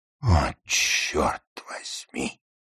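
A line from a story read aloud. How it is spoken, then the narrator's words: Groaning. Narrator (Russian): простонал Ларри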